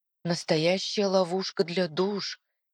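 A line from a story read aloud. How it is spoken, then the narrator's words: Very quiet whisper. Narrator (Russian): тихо-тихо шепчу я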